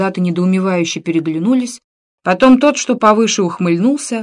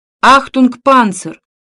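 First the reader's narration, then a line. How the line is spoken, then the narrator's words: Loud shout. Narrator (Russian): громко крикнул пароль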